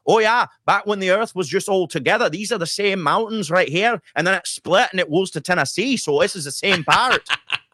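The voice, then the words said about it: Good put-on Scottish accent. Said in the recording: “That's a really good Scottish accent. That, well done.”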